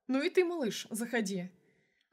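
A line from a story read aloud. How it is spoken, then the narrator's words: Cheerful, laughing. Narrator (Russian): Она сразу развеселилась, засмеялась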